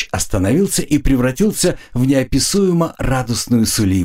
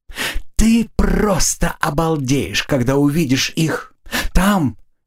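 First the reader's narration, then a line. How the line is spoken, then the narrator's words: Whisper close to ear. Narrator (Russian): Эльфарка нагнулась к самому уху орка и стала шептать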